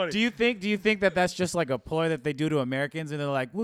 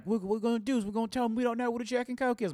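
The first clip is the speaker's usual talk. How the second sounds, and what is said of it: Poor attempt at British accent. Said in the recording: “my British accent is not good ... trying to do a British accent ... that accent like I thought you were like a kid from Alabama”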